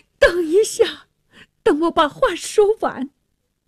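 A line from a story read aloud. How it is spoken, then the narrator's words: Pleading. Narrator (Chinese): 纳沙尔哀求着说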